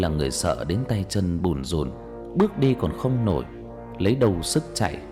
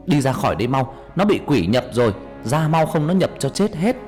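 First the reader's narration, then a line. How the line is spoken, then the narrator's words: Loud yell. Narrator (Vietnamese): ông thầy hét lớn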